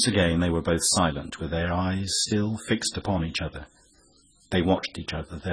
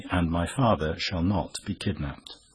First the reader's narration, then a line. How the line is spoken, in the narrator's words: he added calmly